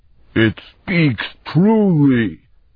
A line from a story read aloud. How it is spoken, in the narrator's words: Gnom howled